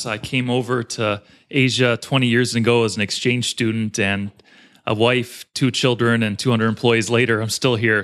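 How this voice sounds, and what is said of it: American accent. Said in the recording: “as you can tell from the accent, I'm from the U.S.”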